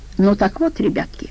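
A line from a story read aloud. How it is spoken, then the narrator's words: Almost tender. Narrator (Russian): почти нежно продолжал он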